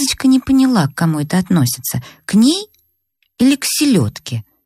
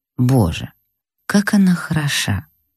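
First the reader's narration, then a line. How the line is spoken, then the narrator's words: Lustful whisper. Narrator (Russian): прошептал сладострастным шепотом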